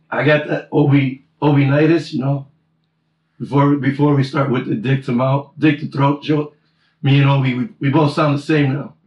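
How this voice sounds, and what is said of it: Hoarse, nearly lost voice. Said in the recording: “You can hear it in my voice... my voice is gone.”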